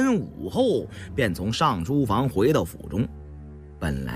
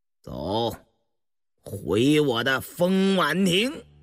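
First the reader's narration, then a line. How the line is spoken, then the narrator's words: Icy laugh. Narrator (Chinese): 乌斯道冰冷冷地笑着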